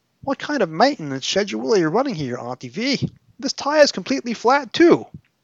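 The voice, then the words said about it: Reader voicing a fictional character. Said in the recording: “Apologies for my Tegan impression. I clearly should have worked on that some more”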